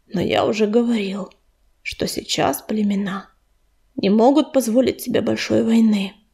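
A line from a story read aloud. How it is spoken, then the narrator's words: Sighing. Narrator (Russian): вздохнул Огнезвезд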